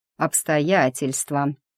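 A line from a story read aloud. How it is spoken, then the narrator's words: Calm. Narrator (Russian): повторил он спокойно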